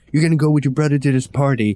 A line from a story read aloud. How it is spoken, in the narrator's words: starts yelling and saying